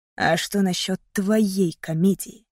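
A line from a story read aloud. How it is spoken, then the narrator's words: Hiss. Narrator (Russian): прошипел Мейсон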